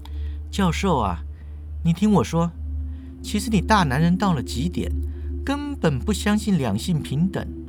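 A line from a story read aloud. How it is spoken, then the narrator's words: Soft, smiling. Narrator (Chinese): 那个女孩呀，笑盈盈的轻声开口就说了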